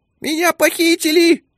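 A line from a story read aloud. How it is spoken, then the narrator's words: Squeak. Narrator (Russian): пискнул МНС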